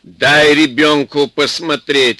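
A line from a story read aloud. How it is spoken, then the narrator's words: Stern mother. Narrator (Russian): строго сказала мать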